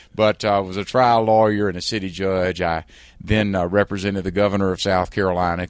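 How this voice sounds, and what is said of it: South Carolina Southern American accent. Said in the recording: “I was a trial lawyer in South Carolina. I'm sure you can tell by my accent. ... I think we can all tell by your accent.”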